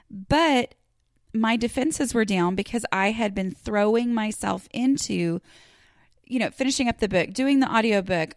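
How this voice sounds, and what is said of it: Voice still not fully recovered. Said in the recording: “my voice is 1,000 times better than it was 4 weeks ago, it's still not great because I was sick for a month”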